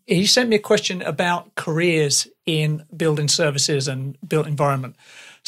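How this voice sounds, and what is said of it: English accent. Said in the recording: “my English accent ... I am English”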